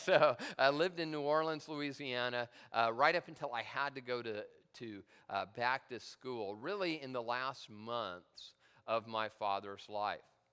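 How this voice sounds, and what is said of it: Southern American accent. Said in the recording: “as you can obviously tell by my southern accent.”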